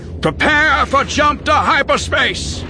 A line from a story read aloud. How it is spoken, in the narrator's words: cried